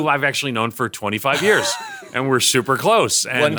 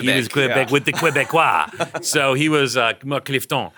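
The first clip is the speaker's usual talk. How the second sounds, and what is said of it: Exaggerated French accent. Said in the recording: “my ridiculous French accent ... You sound like the guy from Little Mermaid.”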